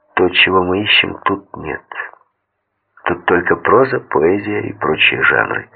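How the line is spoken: Serious, low voice. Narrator (Russian): Я не принял его шутливого тона и сказал вполголоса

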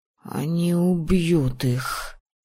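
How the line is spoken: Rasping. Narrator (Russian): прохрипел он

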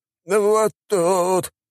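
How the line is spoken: Whimpering. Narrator (Russian): проскулил он

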